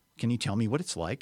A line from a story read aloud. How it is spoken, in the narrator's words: asked the witch